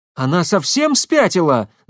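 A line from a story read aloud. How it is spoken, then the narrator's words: Screaming. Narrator (Russian): закричала Шахиня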